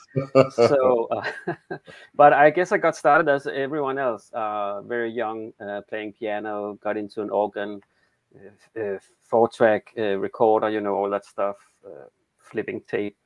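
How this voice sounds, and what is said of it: Danish accent. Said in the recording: “I'm from Denmark. That's the awkward accent. That's why you'll hear that.”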